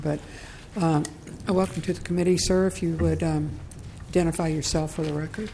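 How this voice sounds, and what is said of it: Hoarse, fading voice. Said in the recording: “I think I'm starting to lose my voice”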